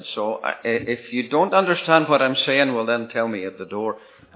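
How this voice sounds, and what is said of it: Irish accent. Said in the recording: “You can tell that I'm the Irish one. ... I can't really help my accent.”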